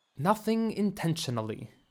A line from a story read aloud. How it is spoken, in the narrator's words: Bellary said